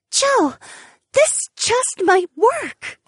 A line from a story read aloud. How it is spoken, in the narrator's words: Ariana gasped in an excited tone